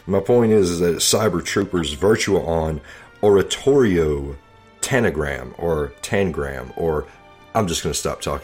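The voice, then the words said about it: Southern American accent. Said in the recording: “this is my Southern accent, Southern brain”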